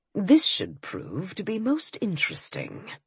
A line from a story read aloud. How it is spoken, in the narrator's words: he murmured